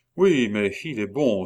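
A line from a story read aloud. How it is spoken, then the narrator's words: Sighing. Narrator (French): soupira Chicot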